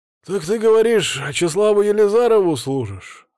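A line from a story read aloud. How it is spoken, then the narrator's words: Drunken voice. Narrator (Russian): спросил я пьяным голосом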